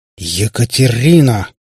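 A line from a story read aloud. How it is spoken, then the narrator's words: Growl. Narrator (Russian): зарычал на дочь Кати пап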